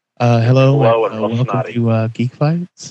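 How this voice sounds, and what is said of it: Mock public radio announcer voice. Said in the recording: “I'm trying to practice my NPR voice.”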